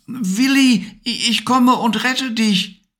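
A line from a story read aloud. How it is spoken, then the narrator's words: Calling out. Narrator (German): rief Levi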